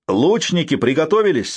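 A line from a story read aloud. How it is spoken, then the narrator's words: Shouted command. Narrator (Russian): заметив движение врага, крикнул Норман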